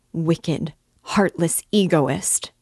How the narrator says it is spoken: cried Dunya

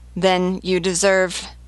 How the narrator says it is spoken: Simordan stammered

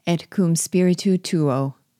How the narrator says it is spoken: added the mysterious Obi, solemnly

